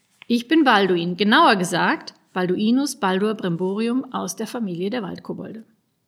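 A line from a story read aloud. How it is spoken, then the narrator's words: Loud. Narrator (German): sagte laut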